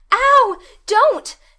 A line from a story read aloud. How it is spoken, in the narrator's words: shrieked poor Anne